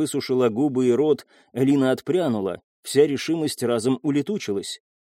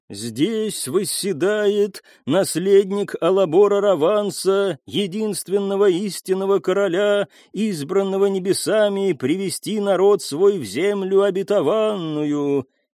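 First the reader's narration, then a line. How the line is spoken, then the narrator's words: Chanting priestess. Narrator (Russian): нараспев прочла жрица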